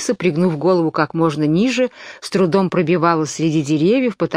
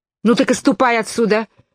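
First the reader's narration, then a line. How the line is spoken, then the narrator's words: Angry dove. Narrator (Russian): сердито ответила голубка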